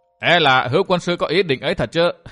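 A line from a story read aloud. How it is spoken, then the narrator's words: Startled, loud laughter. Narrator (Vietnamese): Độc Nhãn Giảo Hồ sửng sốt, đoạn liền biến sắc mặt cũng ha hả cười to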